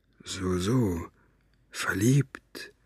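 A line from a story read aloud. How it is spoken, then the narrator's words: Murmur. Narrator (German): murmelte er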